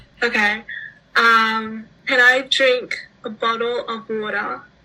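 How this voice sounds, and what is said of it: Australian English accent, flatter vowels. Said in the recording (Chinese): “来一段澳大利亚英语，如何说澳大利亚口音？ ... 就是 Australian accent，它实际上就是它不是像那种 British 那样子的那种哦啊那种感觉，但是它的那种音就是比美式英语来的比较 flat”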